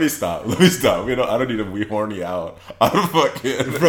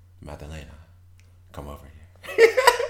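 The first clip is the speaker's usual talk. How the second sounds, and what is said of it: Sexy put-on accent. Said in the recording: “in her little sexy accent”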